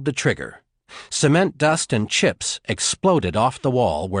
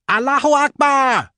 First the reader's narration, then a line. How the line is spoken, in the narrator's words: the man shrieked